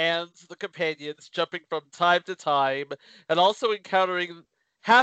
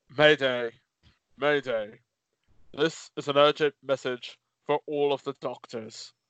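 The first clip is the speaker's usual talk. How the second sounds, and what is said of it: Poor imitation of another person's voice. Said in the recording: “I do apologize for the piss poor impersonation here.”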